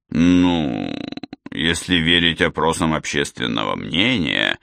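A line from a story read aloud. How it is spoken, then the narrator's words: Hesitant, uncertain. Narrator (Russian): неуверенно начал Лейк, будто сомневаясь в своем успехе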